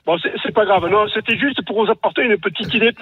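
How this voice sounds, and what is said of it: Regional French accent. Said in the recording (French): “avec mon accent, c'est pas évident”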